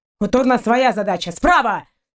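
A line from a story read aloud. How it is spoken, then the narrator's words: Sudden shout. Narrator (Russian): внезапно выкрикнул Шейн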